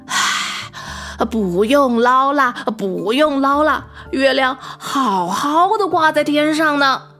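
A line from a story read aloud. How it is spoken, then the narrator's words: Panting. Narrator (Chinese): 于是他喘着气说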